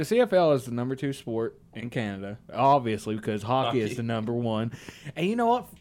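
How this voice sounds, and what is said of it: Usual voice. Nothing is said of it.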